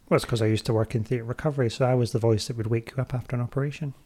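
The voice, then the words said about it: Soothing lilting Scottish accent. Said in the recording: “Apparently I've got a very soothing voice... you do have a very soothing voice... a lilting Scottish accent”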